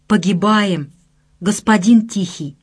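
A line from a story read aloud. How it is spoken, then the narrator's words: Sorrowful hiss. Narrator (Russian): горестно прошипел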